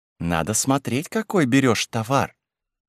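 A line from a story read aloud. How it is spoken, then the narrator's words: Calm reply. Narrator (Russian): спокойно ответила норманка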